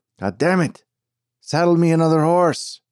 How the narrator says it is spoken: shouting

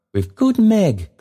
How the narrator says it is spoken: cried the child

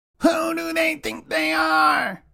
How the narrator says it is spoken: a goblin shouted in disgust

